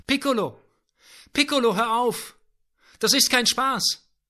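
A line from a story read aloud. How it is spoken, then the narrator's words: Repeatedly shouting over noise. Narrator (German): Immer wieder schrie ich in den Lärm hinein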